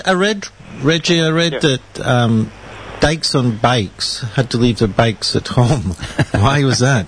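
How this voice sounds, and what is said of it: Scottish accent. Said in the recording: “I've got a Scottish accent ... It took us a while to get used to the accent”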